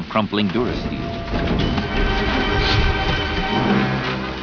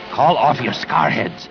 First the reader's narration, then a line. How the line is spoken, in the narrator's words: the Barabel rasped